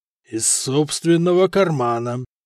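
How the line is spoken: Forced out, stunned disbelief. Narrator (Russian): выдавил, наконец, Халид, который до сих пор не мог осознать, что все это происходит с ним наяву

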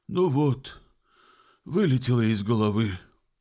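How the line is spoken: Sighed. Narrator (Russian): вздохнул Симон

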